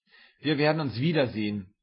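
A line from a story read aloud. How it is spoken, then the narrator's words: Called out. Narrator (German): rief ich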